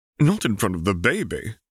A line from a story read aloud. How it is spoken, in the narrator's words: Harry gasped dramatically